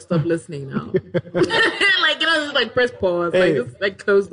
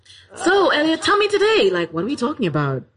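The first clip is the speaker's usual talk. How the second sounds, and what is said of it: Put-on radio presenter voice. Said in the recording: “Let me try and be normal ... put on my radio voice.”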